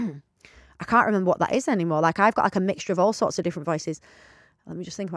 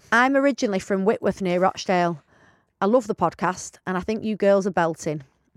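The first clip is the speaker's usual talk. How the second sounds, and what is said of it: Attempted Rochdale accent, sounding Yorkshire. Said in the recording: “in a Rochdale voice ... No, that's more Yorkshire. ... I can't do it.”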